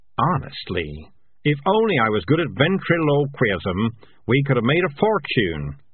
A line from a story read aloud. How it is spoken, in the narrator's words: he grumbled